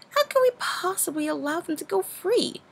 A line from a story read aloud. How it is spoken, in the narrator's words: Luna exclaimed